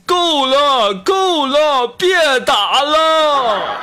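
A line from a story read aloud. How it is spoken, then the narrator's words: Yelling. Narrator (Chinese): 他每次刚开始打我，我就会大吼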